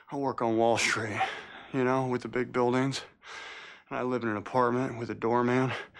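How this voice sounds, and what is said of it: Slight Southern drawl. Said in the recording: “he sounds so southern there... He had a little bit of a drawl.”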